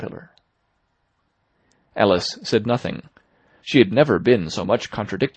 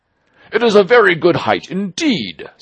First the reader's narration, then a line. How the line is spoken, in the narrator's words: said the Caterpillar angrily